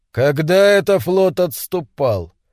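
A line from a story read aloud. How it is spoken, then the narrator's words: Loud and firm. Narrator (Russian): Громко и твердо Бентон сказал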